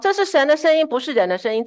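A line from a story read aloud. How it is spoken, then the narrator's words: Crowd shouting. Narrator (Chinese): 百姓呢就喊着说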